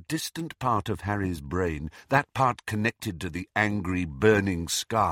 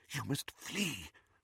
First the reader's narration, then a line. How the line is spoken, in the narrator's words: whispered Professor McGonagall